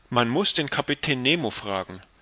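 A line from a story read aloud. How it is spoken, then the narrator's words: Plain. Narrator (German): sagte Conseil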